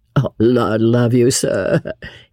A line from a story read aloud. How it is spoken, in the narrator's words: he muttered good-humouredly